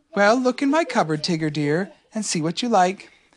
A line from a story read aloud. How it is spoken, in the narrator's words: Kanga said very kindly